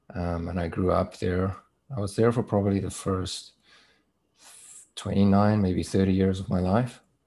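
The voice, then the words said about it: South African accent. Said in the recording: “I was born in South Africa. That's where my accent is from.”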